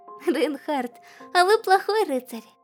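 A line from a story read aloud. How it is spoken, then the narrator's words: Giggling. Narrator (Russian): хихикнула Эмилия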